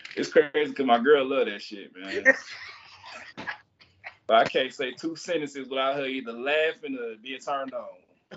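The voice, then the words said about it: Southern country accent. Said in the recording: “let them hear that country accent”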